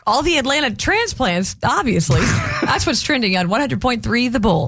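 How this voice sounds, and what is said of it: Classic Georgia accent. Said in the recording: “you sound like Foghorn Leghorn ... That is the classic Georgia accent”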